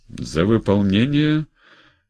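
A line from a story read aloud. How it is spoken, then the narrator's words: Laughing. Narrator (Russian): Родионов засмеялся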